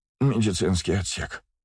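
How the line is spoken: Moaning professor. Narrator (Russian): простонал профессор

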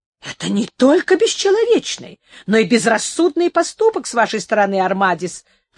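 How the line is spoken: Exclaimed. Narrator (Russian): воскликнул Серано

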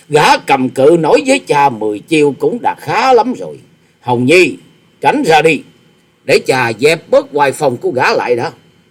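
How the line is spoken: Loud laughter. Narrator (Vietnamese): Tư Đồ Hạnh cười to tiếng

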